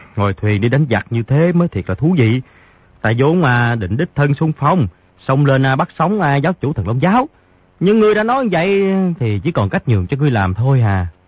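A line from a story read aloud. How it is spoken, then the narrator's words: Sighing. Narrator (Vietnamese): Di Tiểu Bảo thở dài một tiếng nói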